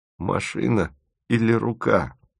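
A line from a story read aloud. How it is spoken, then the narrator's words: Groan. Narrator (Russian): простонал Тимофеев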